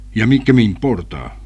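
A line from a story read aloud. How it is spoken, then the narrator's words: Father answering curtly. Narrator (Spanish): respondió secamente el padre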